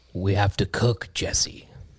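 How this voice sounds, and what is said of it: Poor Breaking Bad character impression. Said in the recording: “It's not a very good impression.”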